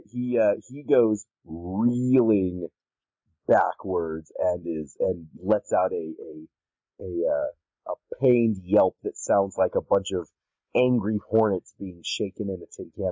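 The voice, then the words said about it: Hoarse, worn-out voice. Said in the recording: “my voice is thrashed”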